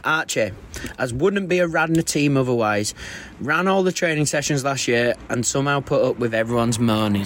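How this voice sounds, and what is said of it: Northern English accent. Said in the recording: “he's Northern ... that dreaded accent ... someone's got it out for my accent”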